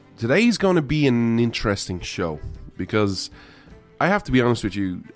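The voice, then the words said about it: Irish accent. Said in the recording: “Irishman stands with America. ... you come for the accent,”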